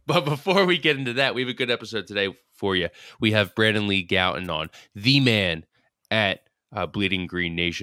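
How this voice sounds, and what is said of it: Nasal, stuffed-up voice. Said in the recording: “apologize for my voice. I'm a nasally, stuffed up”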